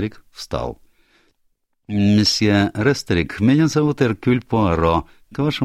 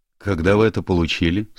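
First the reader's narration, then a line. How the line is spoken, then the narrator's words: Sharp question. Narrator (Russian): спросил Эндрю довольно резким тоном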